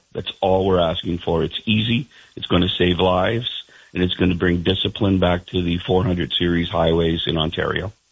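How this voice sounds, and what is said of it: Frustrated, angry tone. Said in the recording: “I'm sure you can hear it in my voice. ... I do hear it in your voice. I hear more than frustration. I hear some anger in your voice.”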